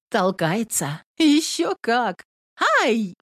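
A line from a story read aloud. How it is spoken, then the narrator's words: Two voices exclaiming, laughing. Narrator (Russian): вскрикнули обе и засмеялись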